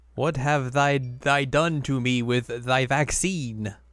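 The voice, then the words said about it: Put-on archaic old English accent. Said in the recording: “now I must talk with ye with this accent ... Very good. The vaccine has thrown you back to the feudal era.”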